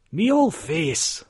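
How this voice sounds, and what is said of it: Poor attempt at Glaswegian accent. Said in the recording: “that's not a Glaswegian accent, it, eh, it, eh, not even a tiny bit”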